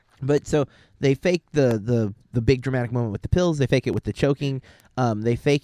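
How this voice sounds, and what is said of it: Usual voice. Nothing is said of it.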